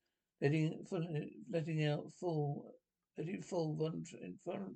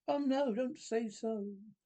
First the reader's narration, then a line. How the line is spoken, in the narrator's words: exclaimed with a burst of passion, amounting almost to frenzy